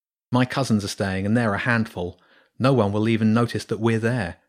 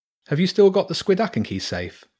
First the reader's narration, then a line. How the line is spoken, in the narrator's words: James asked anxiously